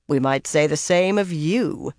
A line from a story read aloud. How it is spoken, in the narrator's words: Pevara replied dryly